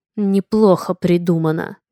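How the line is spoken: Through gritted teeth. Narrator (Russian): процедил Алерик

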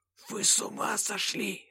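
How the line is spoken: Hissing from above. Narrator (Russian): зашипел сверху Гурьев

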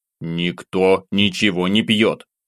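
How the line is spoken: Angry snap. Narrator (Russian): Зло бросил

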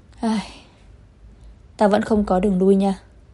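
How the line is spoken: Sighing. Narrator (Vietnamese): Vân Nhiễm thở dài

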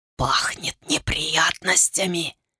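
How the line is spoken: Whisper. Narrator (Russian): прошептал Дон Мин

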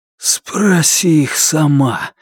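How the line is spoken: Breathed out. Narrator (Russian): выдохнул он

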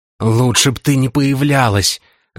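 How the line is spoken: Hissing. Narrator (Russian): зашипела Ламия

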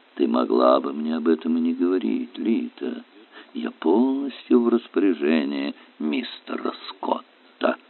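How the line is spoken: Soft young woman's voice. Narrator (Russian): маленькая красотка мягко произнесла

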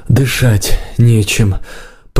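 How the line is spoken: Groan. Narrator (Russian): простонал Горни

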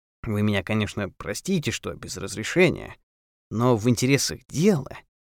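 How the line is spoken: Low voice. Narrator (Russian): сказал он вполголоса, чтобы не услышали дорожники

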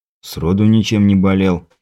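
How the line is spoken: Grumbling mutter. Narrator (Russian): пробурчал я

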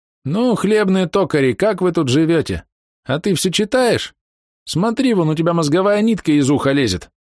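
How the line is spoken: Squeaking. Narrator (Russian): Тень запищала

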